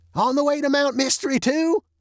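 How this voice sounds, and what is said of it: Thin, high old man's voice. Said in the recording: “yelled the old-timer in a thin, high voice”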